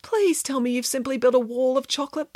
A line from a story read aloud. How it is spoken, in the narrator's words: begged Samantha